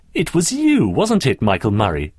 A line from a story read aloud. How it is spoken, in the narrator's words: sneered Daphne